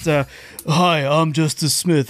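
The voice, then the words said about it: Deep-voiced imitation of another person. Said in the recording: “Do you want to hear Justice Smith do it? ... do his best ... I've got a deep voice.”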